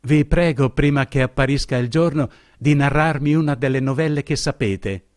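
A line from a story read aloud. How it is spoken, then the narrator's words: Exclaimed. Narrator (Italian): esclamò essa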